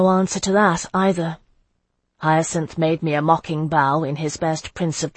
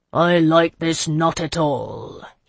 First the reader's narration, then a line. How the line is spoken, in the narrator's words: he growled